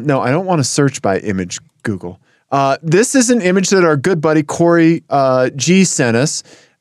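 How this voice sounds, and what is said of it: Voice of someone with a cold. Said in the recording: “I have a cold”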